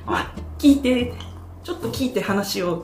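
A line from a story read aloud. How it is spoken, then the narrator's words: Plain. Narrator (Japanese): って言って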